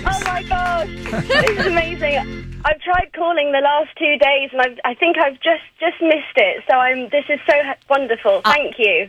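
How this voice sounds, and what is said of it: Distinctive, beautiful accent. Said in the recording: “I recognize your accent. ... I know, it's very distinctive. ... It's beautiful, actually.”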